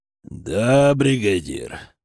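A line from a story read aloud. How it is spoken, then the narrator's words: Pleased bear growl. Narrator (Russian): прорычал довольный медведь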